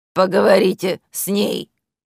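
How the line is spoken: Gruff mutter. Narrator (Russian): буркнула свинья

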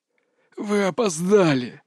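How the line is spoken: Hoarse snarl through bared teeth. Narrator (Russian): захрипел упырь, оскалившись

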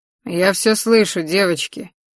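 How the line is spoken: Gloomy remark. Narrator (Russian): мрачно заметил Мариус

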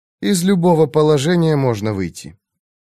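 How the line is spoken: Mother's reasoned tone. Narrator (Russian): Мать тем же рассудительным тоном сказала

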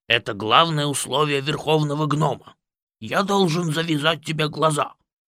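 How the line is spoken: Grumbling. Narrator (Russian): проворчал Пыф

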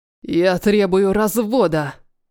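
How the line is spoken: Husband's growl. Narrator (Russian): рыкнул мой муж

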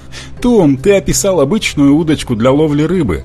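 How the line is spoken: Laughing. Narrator (Russian): засмеялся Робби

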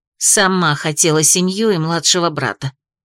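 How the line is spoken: Grumbling inner voice. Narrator (Russian): проворчал внутренний голос

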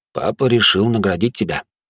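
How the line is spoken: Quiet reply. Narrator (Russian): тихо ответил он

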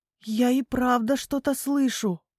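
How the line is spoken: Whisper. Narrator (Russian): прошептала Хвостик

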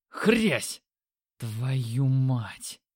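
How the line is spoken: Breathless exhale. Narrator (Russian): выдохнул я

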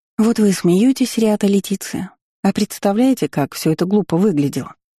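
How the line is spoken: Sighing. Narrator (Russian): вздохнула я

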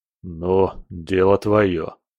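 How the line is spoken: Gruff grumble. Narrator (Russian): буркнул капитан

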